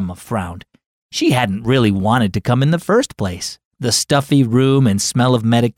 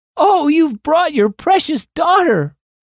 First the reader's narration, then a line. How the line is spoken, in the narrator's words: Great Aunt Rita broke into a smile and called out